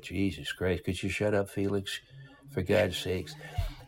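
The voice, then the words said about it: Imitates another person's voice. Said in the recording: “your impression of Walter ... you can't help but have a little of your dad poke through your voice, too”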